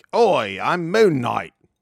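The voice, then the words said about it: Put-on British accent. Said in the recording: “He's doing a British accent.”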